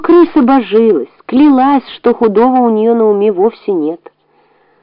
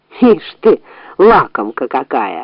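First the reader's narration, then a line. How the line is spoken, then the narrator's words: Laughing. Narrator (Russian): рассмеялся хозяин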